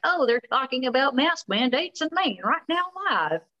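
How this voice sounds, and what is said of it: Put-on old country accent. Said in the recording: “Very intentionally doing my old country accent.”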